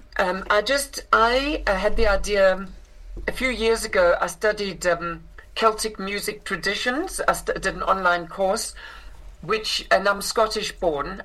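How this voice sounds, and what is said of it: South African accent. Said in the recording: “I grew up in South Africa, which is where I inherited this accent”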